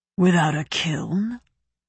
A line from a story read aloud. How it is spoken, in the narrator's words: Gautana said, sounding faintly amused